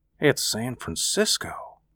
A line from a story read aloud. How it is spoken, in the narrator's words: he said in a low voice